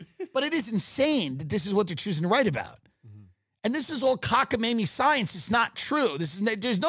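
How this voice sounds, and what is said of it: Usual voice. Nothing is said of it.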